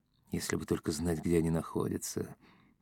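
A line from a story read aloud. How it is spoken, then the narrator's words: Whisper. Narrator (Russian): прошептал Юрковский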